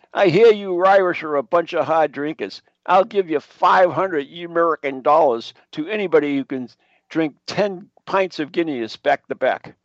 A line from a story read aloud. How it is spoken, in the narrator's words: He yells to the crowd of drinkers